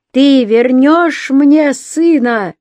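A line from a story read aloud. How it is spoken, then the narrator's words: Yelling with full force. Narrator (Russian): Борка заорал изо всех сил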